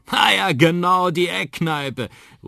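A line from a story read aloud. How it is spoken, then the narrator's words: Calling out. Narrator (German): ruft Onkel Danny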